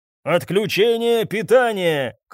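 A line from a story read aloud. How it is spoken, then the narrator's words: Shout. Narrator (Russian): крикнул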